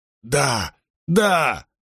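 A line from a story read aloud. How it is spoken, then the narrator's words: Hoarse breathless gasp. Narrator (Russian): хрипло выдохнула она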